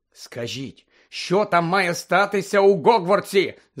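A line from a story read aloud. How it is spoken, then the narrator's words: Shouting from a window. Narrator (Ukrainian): закричав з вікна Фред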